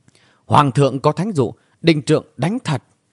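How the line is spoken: Shouted command. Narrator (Vietnamese): quát

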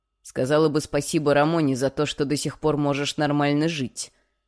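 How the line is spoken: Spat out angrily. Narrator (Russian): выплюнул

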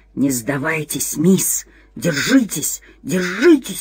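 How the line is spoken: Whisper. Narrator (Russian): шептал какой-то голос

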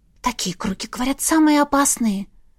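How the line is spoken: Barely audible young witch's whisper. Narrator (Russian): прошептала едва слышно разноволосая ведьмочка

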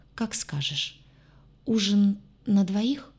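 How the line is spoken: Uncertain clarifying question. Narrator (Russian): неуверенно уточнил

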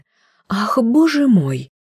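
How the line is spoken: Sudden cry. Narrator (Russian): вдруг вскрикнула та

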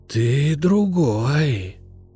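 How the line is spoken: Hissing. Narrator (Russian): прошипел он

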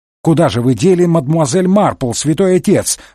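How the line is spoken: Indignant shout from behind. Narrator (Russian): возмущенно выкрикнул из-за спины Мегре инспектор Жюв

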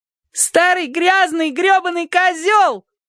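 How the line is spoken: Shouted. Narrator (Russian): крикнула Розетта

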